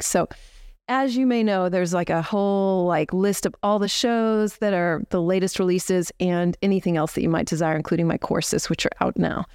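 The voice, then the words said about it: Out of breath, rushed speech. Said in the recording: “I'm kind of rushing through this ... I've been like out of breath since we walked up the stairs”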